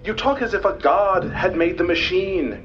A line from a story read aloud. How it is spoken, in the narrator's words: cried the other